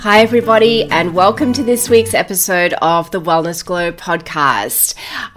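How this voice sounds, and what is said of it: Husky, slightly hoarse voice. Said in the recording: “I've got a little bit of a frog in my throat ... a few little remnants of a cough and a bit of a husky voice”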